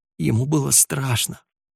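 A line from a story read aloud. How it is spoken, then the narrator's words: Tearful mumbling. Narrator (Russian): бубнила сквозь слезы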